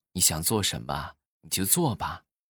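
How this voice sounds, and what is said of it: Soft, gentle whisper. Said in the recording (Chinese): “温柔的小声的就跟他耳边就说”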